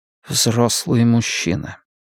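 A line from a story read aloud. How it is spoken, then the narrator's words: Quiet. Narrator (Russian): тихо сказал Риттер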